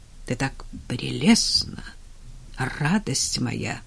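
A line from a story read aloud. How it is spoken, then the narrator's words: Mumbled. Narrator (Russian): пробормотал он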